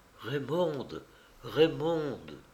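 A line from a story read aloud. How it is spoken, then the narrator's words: Faint breathy calling. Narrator (French): Une voix faible comme un souffle l'appelait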